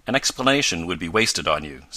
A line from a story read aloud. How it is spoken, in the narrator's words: said Professor Bumper stiffly